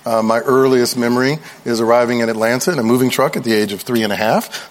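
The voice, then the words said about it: Southern US accent. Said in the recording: “as you can tell by my accent, I was born in Chattanooga, Tennessee ... I am a Southern boy”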